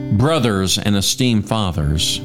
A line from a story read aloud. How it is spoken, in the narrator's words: Paul said